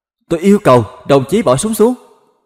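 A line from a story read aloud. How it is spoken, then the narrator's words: Loud shout, near tears. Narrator (Vietnamese): Long hai mắt cay cay quát lớn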